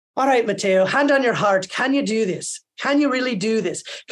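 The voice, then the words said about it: Imitated Irish accent. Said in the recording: “He was an Irish director ... I'm going to butcher the accent a bit”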